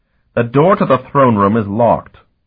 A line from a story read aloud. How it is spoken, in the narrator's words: Lycaeus snapped